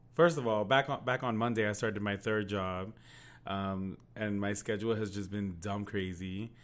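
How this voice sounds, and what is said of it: Hoarse, nearly lost voice. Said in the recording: “I lost my voice.”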